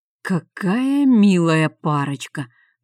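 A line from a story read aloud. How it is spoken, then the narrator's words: Through gritted teeth. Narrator (Russian): процедил сквозь зубы помощник советника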